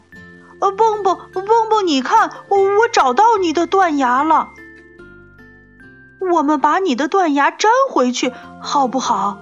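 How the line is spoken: Shouting. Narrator (Chinese): 跳跳喊着

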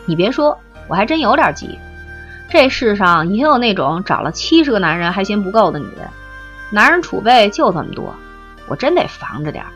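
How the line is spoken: Unbothered, amused. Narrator (Chinese): 雷晶也不生气，只一笑

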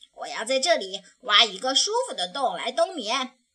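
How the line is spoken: Loud shout. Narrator (Chinese): 小熊大声叫道

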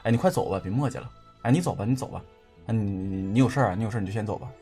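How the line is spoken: Muttering. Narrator (Chinese): 他就一直在嘟囔着、念着

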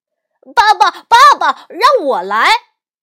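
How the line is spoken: Loud shout. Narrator (Chinese): 福娃大声喊

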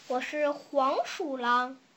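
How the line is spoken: Low voice. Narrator (Chinese): 他低声说

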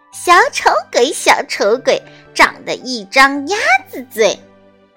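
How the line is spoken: Mocking taunt. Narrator (Chinese): 一只小鸟嘲笑它

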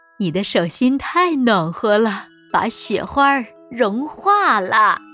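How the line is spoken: Gentle. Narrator (Chinese): 奶奶温柔地说

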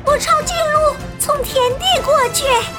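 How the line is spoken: Shout. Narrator (Chinese): 贝利奥喊道

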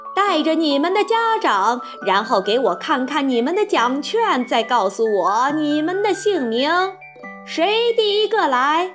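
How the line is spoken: High, soft, clear call. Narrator (Chinese): 他的声音很高，柔和而清亮，他叫道

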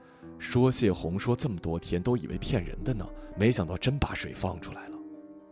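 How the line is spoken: Worried muttering. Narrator (Chinese): 她眉头紧蹙，喃喃自语

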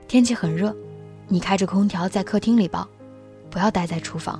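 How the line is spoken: Soft. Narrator (Chinese): 他又轻声说

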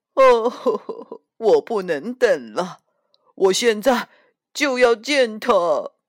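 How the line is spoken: Wailing, sobbing. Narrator (Chinese): 猪先生嚎啕大哭

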